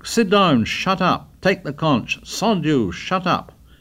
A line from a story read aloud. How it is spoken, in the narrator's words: Ralph shouted